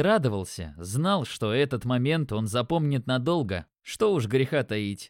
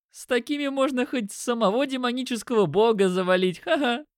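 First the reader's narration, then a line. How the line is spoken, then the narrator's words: Laughing. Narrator (Russian): Я рассмеялся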